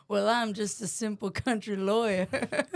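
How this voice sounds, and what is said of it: Southern country lawyer voice. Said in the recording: “Give your defense as a Southern lawyer.”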